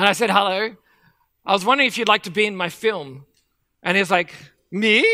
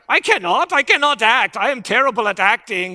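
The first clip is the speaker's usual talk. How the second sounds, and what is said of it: Put-on Swedish accent, admittedly poor. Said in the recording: “my Swedish accent is going to be terrible.”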